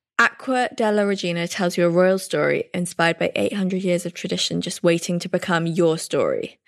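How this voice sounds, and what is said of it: English accent. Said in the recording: “your gorgeous English accent”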